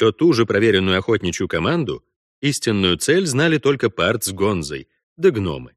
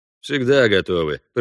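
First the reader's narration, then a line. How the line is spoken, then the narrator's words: Grumbling reply. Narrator (Russian): проворчал Пард в ответ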